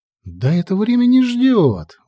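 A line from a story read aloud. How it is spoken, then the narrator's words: Exclaiming. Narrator (Russian): воскликнула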